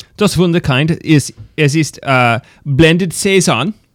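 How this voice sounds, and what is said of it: Good put-on German accent. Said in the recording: “you have a, a, good German accent? ... It's way better than mine.”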